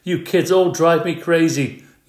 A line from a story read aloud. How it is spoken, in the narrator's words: yelled Mr